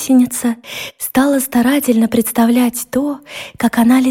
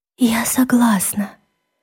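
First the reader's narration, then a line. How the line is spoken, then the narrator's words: Whisper. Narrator (Russian): шепнула гусеница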